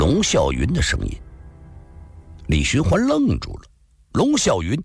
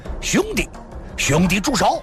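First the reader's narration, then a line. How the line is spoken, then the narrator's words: Loud shout. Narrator (Chinese): 一人大声的呼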